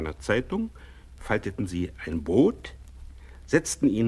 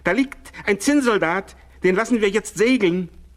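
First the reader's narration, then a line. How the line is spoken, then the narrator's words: Surprised call. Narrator (German): rief der eine überrascht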